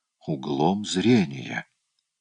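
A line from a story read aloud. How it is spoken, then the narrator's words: Mumbling. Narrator (Russian): пробормотала Эмили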